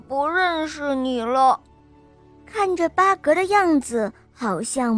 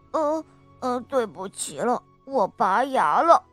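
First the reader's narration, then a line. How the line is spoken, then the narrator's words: Mumbling. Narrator (Chinese): 巴格咕哝着嘴巴说道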